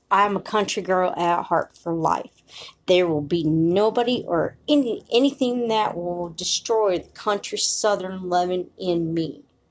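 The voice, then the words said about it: Country Southern American accent. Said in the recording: “I know I sound country.”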